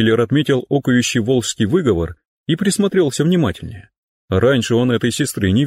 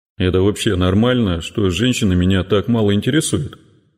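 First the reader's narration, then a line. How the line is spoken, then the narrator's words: Sigh. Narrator (Russian): Вздохнул он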